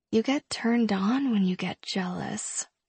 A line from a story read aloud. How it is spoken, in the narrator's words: I mumble against his lips